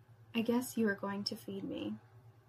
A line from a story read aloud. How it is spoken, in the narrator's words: You smile and whispering in my ear